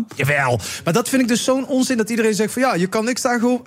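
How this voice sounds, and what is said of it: Put-on Limburg Dutch accent. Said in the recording (Dutch): “Waarom doe ik trouwens een Limburgs accent?”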